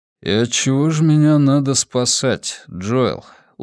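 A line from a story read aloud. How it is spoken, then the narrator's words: Weary question. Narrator (Russian): устало спросил он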